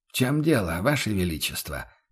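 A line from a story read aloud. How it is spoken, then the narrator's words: Gentle inquiry. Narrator (Russian): мягко осведомился Бруно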